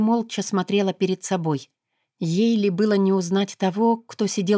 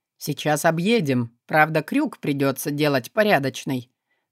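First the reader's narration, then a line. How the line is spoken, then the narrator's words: Driver grumbling. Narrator (Russian): проворчал водитель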